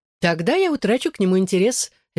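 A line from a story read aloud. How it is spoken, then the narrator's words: Cheerful reply. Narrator (Russian): весело ответила она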